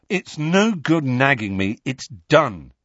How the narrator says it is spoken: he said firmly

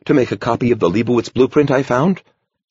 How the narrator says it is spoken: he blurted

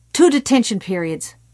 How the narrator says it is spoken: Morton snapped

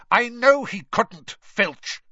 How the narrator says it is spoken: Snape snapped

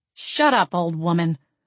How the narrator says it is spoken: grumbled, refusing to let my lips so much as tremble

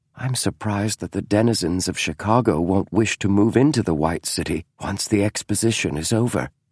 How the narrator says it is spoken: he said softly

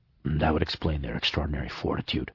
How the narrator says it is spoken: Snout said, still in a murmur

